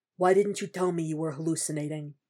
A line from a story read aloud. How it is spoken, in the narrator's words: Frank asks in an undertone, something somber in his voice